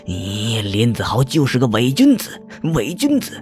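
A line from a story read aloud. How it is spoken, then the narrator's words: Furious roar. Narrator (Chinese): 林鹏眼睛里充满了怒火……吼着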